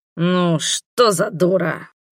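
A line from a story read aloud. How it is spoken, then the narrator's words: Muttering. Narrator (Russian): пробормотал он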